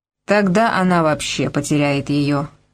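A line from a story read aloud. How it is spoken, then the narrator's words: Calm. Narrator (Russian): спокойно сказал Сайкс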